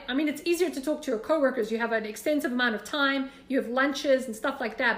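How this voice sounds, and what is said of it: South African accent. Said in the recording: “God bless my accent ... I love your accent, where are you from? And then I'd be like, South Africa.”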